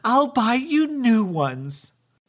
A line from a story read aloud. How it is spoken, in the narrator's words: got mad and said